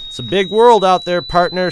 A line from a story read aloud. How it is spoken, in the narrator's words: shouted, laughing